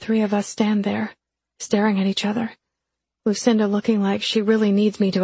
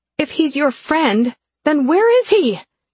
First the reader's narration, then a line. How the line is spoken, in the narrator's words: I yell that last part